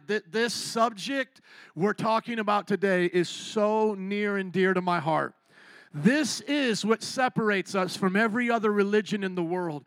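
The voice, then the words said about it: Choked-up, emotional voice. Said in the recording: “I'm still a little bit choked up ... I am so emotional right now”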